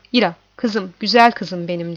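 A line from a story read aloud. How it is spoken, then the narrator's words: Plain. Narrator (Turkish): dedi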